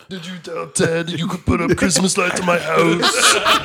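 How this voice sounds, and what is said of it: Imitates another person's voice. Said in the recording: “I'm going to give that a 6 on a Arnold impersonation. That was brilliant.”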